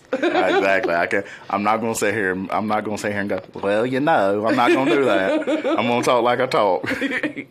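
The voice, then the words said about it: Southern American twang. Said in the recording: “that southern twang ... that's just your voice”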